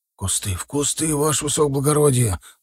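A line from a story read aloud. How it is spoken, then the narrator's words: Urgent whisper. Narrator (Russian): зашептал егерь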